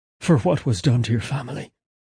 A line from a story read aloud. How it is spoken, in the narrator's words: Simeon whispered, torn by pain and regret